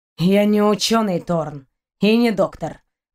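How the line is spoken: Gloomy reply. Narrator (Russian): мрачно отозвался Шейн

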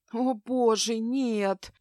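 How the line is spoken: Moaning. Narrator (Russian): простонала Аврора

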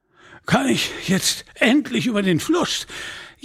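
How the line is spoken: Gasping. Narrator (German): japste der Mönch

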